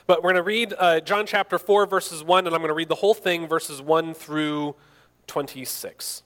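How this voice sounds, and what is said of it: Hoarse, croaky throat. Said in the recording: “my voice is just a little bit. I got a frog in my throat.”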